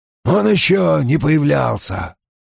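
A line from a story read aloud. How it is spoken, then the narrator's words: Hoarse. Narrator (Russian): хрипло сообщил Безухий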